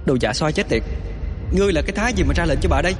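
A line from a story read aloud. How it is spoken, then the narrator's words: Irritated shout. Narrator (Vietnamese): Bạch Kê bực mình quát lại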